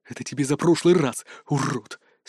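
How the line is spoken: Heartfelt whisper. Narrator (Russian): с чувством прошептал он

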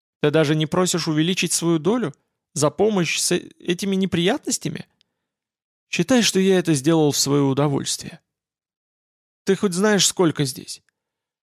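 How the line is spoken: Trembling voice. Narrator (Russian): Владимир сказал дрогнувшим голосом

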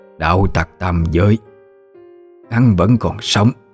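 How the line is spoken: Shocked, disbelieving stammer. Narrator (Vietnamese): Cửu tử quỷ mẫu, với vẻ thảng thốt kinh khiếp, lắp bắp như không thể tin

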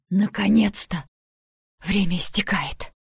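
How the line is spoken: Breathless exhale. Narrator (Russian): Я выдохнула

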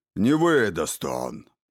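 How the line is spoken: Old man grumbling. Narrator (Russian): продолжил бурчать старик

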